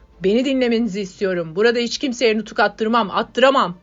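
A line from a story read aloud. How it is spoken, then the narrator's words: Young man shouting from crowd. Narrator (Turkish): Kalabalığın arasındaki genç bağırdı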